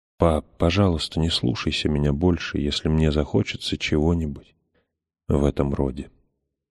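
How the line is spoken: Soft whisper. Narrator (Russian): прошептала отцу

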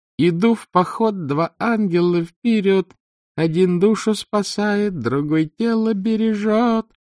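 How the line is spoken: Squeaky off-key singing. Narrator (Russian): щенячьим голоском, перевирая мелодию, пела она

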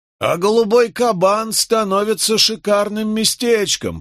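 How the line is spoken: Loud, meant to be overheard. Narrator (Russian): произнес один из них так громко, чтобы мы слышали

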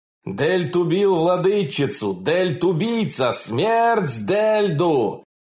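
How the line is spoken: Crowd shouting. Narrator (Russian): В зале все кричали

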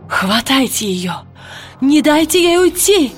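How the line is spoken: Shouted. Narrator (Russian): выкрикнула она

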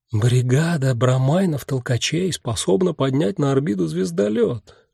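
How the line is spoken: Whisper. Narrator (Russian): шептал кто-то очень умный

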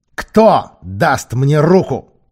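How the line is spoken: Roar. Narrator (Russian): проревел Сильвер

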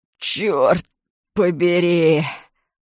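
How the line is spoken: Groaning. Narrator (Russian): простонал он

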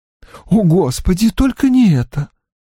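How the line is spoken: Dismayed exhale. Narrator (Russian): выдохнула его сестра

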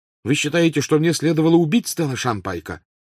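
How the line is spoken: Angry question. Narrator (Russian): сердито спросил Гарри

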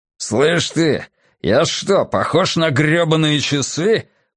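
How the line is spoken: Man's growl. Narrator (Russian): прорычал первый мужчина

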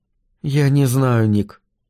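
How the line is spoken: Sad voice. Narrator (Russian): сказала она печальным голосом

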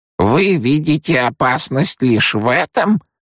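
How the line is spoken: Demanding, creaky old woman's voice. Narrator (Russian): требовательно скрипучим голосом произнесла преподобная мать

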